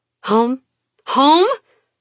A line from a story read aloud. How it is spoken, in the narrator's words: Her voice rises